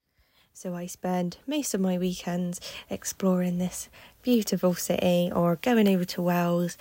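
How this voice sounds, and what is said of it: Bristol English accent. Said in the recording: “as you might be able to tell from my accent, I am from Bristol”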